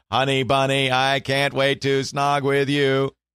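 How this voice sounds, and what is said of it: Robotic text-to-speech voice. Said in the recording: “it would read it in a robotic voice”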